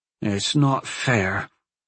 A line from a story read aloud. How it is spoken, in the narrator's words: Corin grumbled